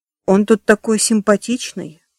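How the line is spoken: Affectionate. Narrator (Russian): ласково сказала Тесс

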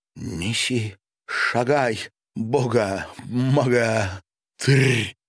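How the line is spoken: Angry slurred moan. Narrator (Russian): зло простонала Маша, заплетаясь языком

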